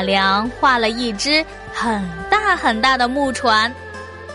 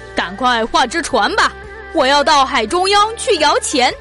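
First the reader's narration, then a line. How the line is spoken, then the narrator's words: Laughing, hurried emperor. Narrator (Chinese): 皇帝大声笑了起来，急忙对马良说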